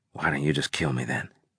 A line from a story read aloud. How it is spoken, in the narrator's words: I asked her